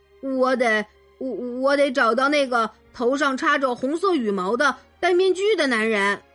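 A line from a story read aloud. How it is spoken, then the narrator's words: Stammering. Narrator (Chinese): 王子结结巴巴的说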